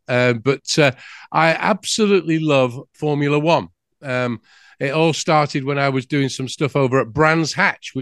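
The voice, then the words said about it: English accent. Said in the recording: “I'm from England. You might have guessed that by the accent.”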